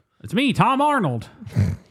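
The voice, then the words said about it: Imitates another person's voice. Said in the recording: “that's my Tom Arnold impression. Is he just kind of talk like this. ... He's like a 1950s actor”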